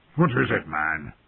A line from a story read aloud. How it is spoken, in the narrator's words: Mormont said gruffly